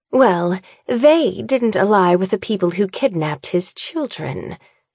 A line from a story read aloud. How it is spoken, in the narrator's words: she says coolly